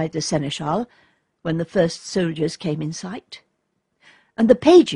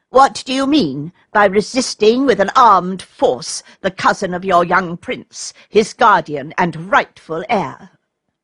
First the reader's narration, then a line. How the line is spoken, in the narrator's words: said Vladimir in a haughty tone